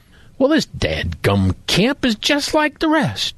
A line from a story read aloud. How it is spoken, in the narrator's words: exclaimed Joe Murphy